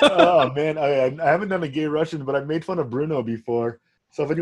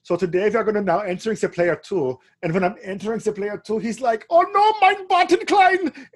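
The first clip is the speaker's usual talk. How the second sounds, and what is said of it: Mock German accent. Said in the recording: “when you want to talk with a little German accent”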